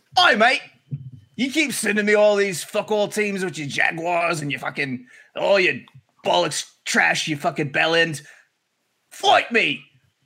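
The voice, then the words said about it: Bad put-on British accent. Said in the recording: “in a bad British accent”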